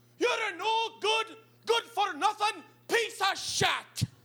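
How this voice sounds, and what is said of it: Put-on Irish accent, yelling. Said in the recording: “she takes on this weird Irish accent that she's never had before”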